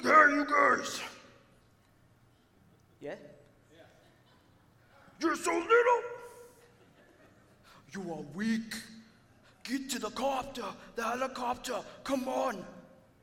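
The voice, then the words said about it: Imitates another person's voice. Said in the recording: “That was my best impression”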